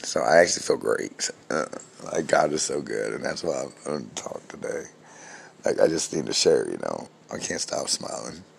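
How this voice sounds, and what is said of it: Scratchy, recovering voice. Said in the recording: “my voice is starting to come back. It's still a little scratchy ... I just sound bad”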